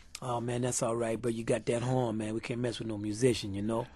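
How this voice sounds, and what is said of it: New Orleans accent. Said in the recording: “they would say in a New Orleans accent”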